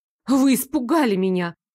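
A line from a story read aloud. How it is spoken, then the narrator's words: Accusing exclamation. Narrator (Russian): обвиняюще воскликнула я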